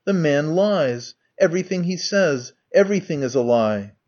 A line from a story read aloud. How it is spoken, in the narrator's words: he cried